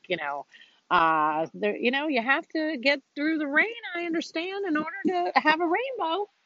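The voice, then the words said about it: Put-on country accent. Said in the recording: “she does not talk like that ... That's my little country accent for you.”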